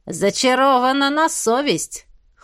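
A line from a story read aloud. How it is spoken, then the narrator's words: Dragon's snort. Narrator (Russian): хмыкнул Змей Горыныч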